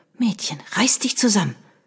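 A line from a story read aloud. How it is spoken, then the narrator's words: Hissed. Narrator (German): zischte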